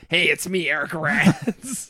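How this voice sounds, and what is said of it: Imitates another person's voice. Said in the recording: “I wanted to do a voice too”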